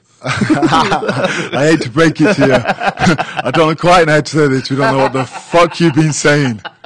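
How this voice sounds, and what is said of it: English accent. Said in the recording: “You do have a bit of an accent”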